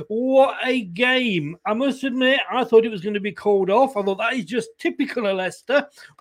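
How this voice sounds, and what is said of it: Hoarse, strained voice. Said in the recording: “I am losing my voice.”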